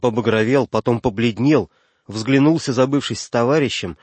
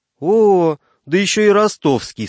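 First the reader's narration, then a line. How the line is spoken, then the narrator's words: Laughing. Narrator (Russian): сказал захохотав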